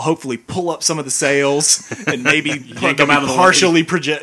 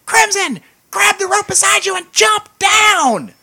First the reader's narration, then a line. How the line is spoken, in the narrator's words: he screams out